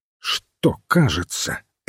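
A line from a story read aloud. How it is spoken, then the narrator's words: Sharp question. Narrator (Russian): резко спросил священник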